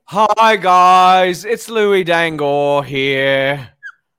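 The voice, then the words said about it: Louis Dangor impression. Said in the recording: “do a Louis Dangor impersonation”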